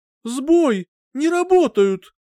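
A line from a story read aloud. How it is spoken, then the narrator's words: Frightened exclamation. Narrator (Russian): Действительно испуганно воскликнула Хайди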